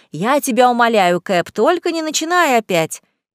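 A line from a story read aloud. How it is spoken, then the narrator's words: Laughing. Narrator (Russian): Я засмеялась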